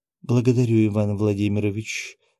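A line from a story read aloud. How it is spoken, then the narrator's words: Very pleased tone. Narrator (Russian): произнесла она крайне довольным тоном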